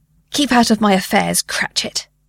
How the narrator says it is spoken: Marley snapped

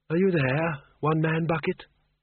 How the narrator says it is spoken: he said softly

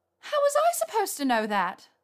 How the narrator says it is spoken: She said in a shrill tone

